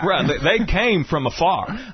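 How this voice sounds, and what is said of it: Put-on Southern US accent. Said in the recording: “That's your southern accent, though.”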